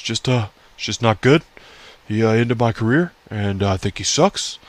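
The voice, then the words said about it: Poor imitation of another person's voice. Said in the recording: “my shitty Bret Hart impression.”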